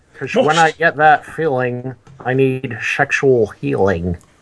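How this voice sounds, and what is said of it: Imitates another person's voice. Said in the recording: “Anytime I do a Sean Connery impression”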